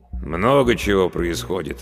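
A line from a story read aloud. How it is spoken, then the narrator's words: Sighing. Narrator (Russian): вздохнул староста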